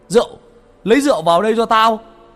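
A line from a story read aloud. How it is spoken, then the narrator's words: Shouted. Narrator (Vietnamese): Có tiếng A Vàng hét lên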